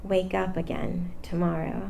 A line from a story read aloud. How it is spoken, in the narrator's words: so quietly we could barely hear, she'd say